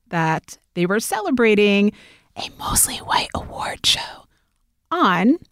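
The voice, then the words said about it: Whispering. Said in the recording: “I'm whispering that”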